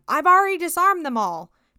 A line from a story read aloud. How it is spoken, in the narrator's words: the sheriff yelled after them